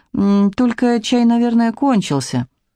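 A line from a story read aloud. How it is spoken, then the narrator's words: Uncertain. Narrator (Russian): отвечает неуверенно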